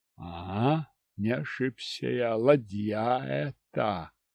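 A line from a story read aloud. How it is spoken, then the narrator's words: Pleased snort. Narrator (Russian): Хмыкнул я довольно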